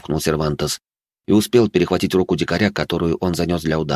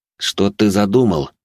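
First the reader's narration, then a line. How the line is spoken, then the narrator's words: Through gritted teeth. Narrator (Russian): процедил Сервантес сквозь зубы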